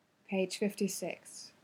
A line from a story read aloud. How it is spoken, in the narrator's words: he murmured